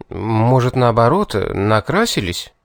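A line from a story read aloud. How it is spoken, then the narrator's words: Uncertain suggestion. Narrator (Russian): неуверенно предположил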